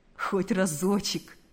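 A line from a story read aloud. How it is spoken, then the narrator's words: Silly laughing. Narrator (Russian): сказал он, глупо рассмеявшись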